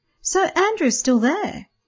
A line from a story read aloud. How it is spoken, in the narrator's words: Peter exclaimed